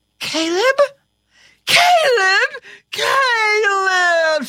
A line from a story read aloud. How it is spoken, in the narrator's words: shrieked